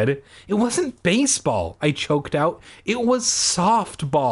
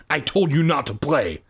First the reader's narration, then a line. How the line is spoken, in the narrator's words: Mom said sternly